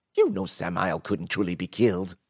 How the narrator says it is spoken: Ragnar snapped impatiently

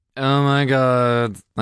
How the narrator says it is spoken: I groaned

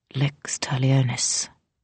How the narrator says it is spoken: she murmured

